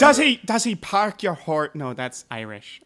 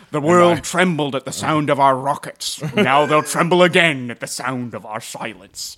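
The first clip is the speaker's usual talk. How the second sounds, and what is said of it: Scottish-accented actor impression, fairly good. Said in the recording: “I wanted to do a Scottish accent ... that was not a bad Sean Connery”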